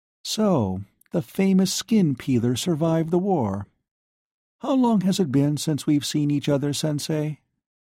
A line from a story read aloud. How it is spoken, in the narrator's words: asked in a distant tone